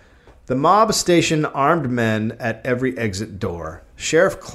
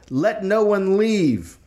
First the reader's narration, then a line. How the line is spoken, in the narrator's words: Someone shouted